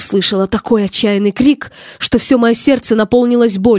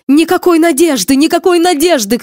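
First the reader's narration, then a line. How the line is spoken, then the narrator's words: Shouting. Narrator (Russian): кричал человек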